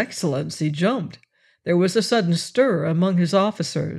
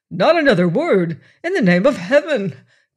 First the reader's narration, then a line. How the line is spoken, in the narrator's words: cried the admiral in alarm